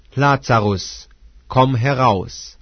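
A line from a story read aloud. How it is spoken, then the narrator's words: Loud call. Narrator (German): rief er mit lauter Stimme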